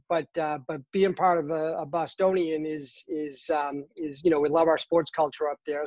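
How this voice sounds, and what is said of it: Boston accent, dropped R's. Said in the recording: “I'm originally from Boston, Massachusetts ... I drop my R's. You'll definitely hear my accent.”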